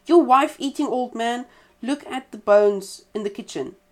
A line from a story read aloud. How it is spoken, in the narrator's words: the badger suddenly transformed himself back into his natural form and cried out